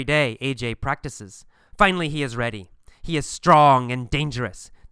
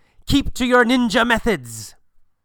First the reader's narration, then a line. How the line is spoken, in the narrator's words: the master yells